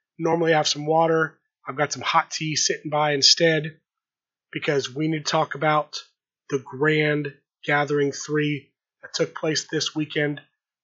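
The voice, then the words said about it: Voice in poor, strained condition. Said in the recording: “If you can tell by this recording, my voice is not the best, but I'm going to try and power through this episode.”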